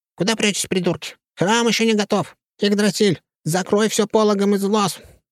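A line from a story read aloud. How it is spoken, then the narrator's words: Barking. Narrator (Russian): рявкнул Урфин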